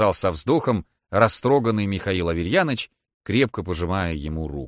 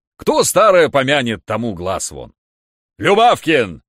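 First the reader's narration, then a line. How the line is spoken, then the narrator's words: Sudden very loud shout. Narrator (Russian): Вдруг крикнул он так громко, что все почтальоны и посетители вздрогнули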